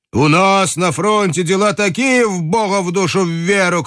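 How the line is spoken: Shouting. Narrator (Russian): кричал перебий нос

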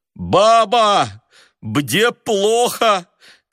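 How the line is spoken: Shouting with stuffy nose. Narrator (Russian): крикнул он сквозь насморк

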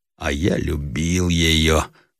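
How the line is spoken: Moved, tender voice. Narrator (Russian): прибавил Ижорский растроганным голосом

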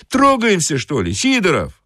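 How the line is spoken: Conductor shouting. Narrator (Russian): крикнул кондуктор

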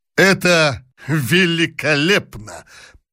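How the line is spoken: Repeated with convulsive laughter. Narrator (Russian): повторил он несколько раз, судорожным хохотом

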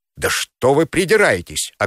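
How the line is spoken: Snapping. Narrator (Russian): огрызнулся Липунов

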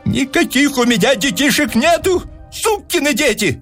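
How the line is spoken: Furious yell. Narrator (Russian): заорал Персиков

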